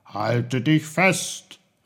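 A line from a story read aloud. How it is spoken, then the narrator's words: Calling out. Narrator (German): rief er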